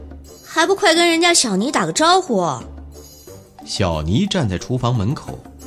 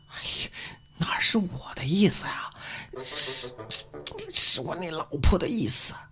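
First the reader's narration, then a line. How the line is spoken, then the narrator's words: Even quieter voice. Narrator (Chinese): 徐小兵的声音更小了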